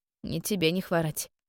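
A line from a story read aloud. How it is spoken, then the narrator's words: Gloomy reply. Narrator (Russian): мрачно ответила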